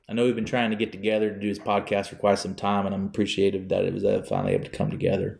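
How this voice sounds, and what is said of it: Exaggerated put-on country accent. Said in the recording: “I'm doing a dumb country accent”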